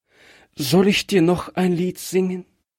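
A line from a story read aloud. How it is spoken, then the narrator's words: Child asks, trembling voice. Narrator (German): Das Kind fragte es mit bebender Stimme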